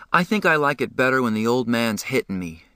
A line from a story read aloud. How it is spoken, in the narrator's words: Johnny sighed